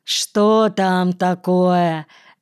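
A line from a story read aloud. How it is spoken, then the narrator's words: Lazy reply. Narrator (Russian): лениво ответил Антон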